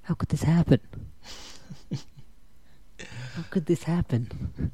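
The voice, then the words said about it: Mob boss impression voice. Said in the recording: “my mob boss impression ... something for The Sopranos”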